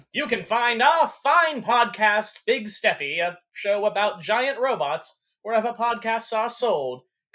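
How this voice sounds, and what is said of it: Transatlantic radio narrator voice. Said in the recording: “If you want to do a radio thing, you got to go full transatlantic narrator voice.”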